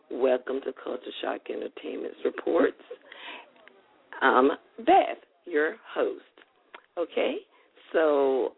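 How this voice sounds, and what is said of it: Deep, groggy morning voice. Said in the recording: “Excuse my groggy, my deep voice. It's really deep and groggy this morning.”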